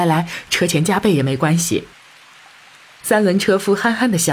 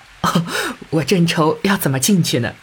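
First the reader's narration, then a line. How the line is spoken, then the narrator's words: Laughing. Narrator (Chinese): 陈妈妈笑道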